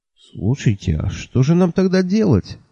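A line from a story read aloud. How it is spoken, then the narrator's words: Confused question. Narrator (Russian): растерянно спросил я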